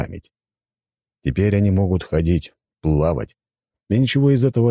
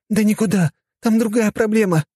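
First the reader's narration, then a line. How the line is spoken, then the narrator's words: Exclaiming. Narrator (Russian): воскликнула она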